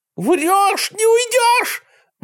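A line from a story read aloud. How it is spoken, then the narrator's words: Howling. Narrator (Russian): взвыл государственный преступник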